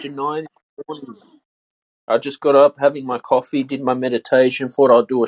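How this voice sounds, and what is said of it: Australian accent. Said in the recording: “it would only be an accent guess ... I'm torn between Australia, New Zealand, or South Africa ... Sydney, Australia”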